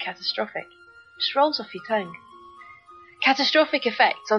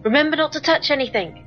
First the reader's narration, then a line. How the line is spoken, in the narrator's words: exclaim